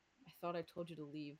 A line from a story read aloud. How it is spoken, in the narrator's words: they muttered, trying to talk as low as Ender possible mouth